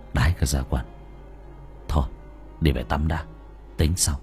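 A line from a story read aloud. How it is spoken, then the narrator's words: Muttering. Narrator (Vietnamese): thằng Hiếu lẩm bẩm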